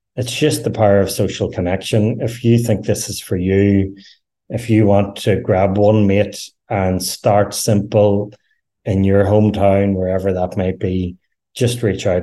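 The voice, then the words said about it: Irish accent. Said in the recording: “if you can understand the Irish accent”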